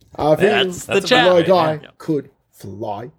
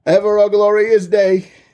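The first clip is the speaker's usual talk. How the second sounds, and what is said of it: Attempted Cockney accent as Bert. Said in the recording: “Can you do Bert from Mary Poppins? Can you do that? ... your Cockney accent”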